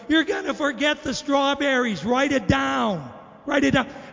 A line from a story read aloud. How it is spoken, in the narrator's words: she yelled out in front of everybody